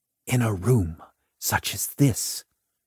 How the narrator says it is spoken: whispered

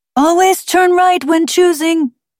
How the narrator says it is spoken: the talking Pecanino shouted after her

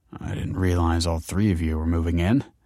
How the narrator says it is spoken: he muttered

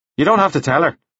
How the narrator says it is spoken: Devlin said quickly

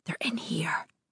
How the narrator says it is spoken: I whisper to Mary

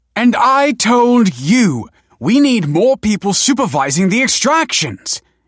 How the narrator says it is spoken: yelled Professor Hesley

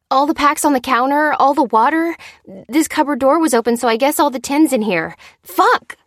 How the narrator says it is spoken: she cried

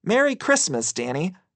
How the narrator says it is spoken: she cheerfully exclaimed

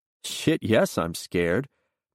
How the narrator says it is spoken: MacReady says and laughs

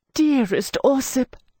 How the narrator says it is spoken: I cried

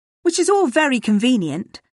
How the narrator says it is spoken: snapped

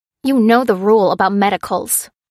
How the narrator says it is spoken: snapped the clerk, reprimanding the driver

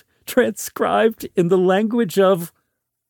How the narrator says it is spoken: giggled

